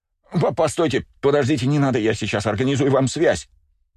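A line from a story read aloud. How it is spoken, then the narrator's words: Rapid patter. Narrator (Russian): скороговоркой затараторил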